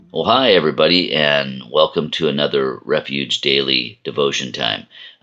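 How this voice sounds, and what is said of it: Hoarse, froggy voice. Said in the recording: “my voice sounds a little bit on the froggy side ... a sore throat ... my voice has changed a little bit”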